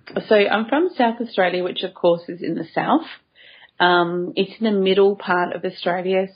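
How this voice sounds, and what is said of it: Australian accent. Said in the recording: “I'm just entranced by your accent. I'm so excited to have somebody from Australia.”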